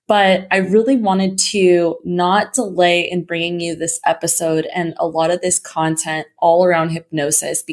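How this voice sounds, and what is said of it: Slightly shaky voice. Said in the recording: “You can kind of hear my voice a little bit shaky ... I am kind of fighting through a little bit of a cold ... my voice sounds a little bit different”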